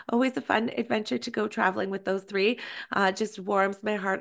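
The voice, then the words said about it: Raspy, partly lost voice. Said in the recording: “I sound a bit raspy ... I'm a little under the weather today, or I've actually lost my voice”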